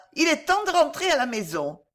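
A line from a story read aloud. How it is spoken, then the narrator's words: Shouted. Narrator (French): cria Baba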